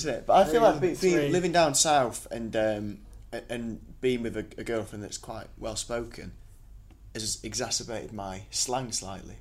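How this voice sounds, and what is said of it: Northern English accent. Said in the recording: “How northern do you think I sound? ... Very. ... You do sound northern.”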